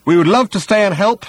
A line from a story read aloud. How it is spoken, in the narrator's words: shouted Ford